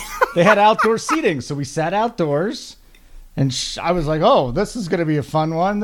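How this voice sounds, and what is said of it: Usual voice. Nothing is said of it.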